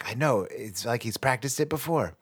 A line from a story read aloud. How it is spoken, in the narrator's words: the other person whispers back